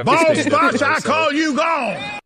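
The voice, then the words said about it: Foghorn Leghorn-style Southern accent. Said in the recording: “I know there are real people with that accent, but it's Foghorn Leghorn to me every time. It's you're a giant rooster.”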